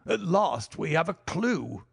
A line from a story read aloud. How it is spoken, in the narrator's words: he cried